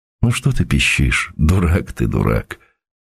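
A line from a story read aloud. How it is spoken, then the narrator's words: Whisper. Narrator (Russian): шепотом сказал Сергей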